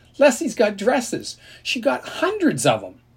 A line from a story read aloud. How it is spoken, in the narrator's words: his voice sounded as prissy as Ellie's